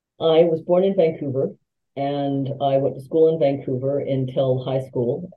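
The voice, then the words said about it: Non-British accent. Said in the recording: “Your accent, obviously you didn't grow up or were not born in London ... you have an accent that does not sound British.”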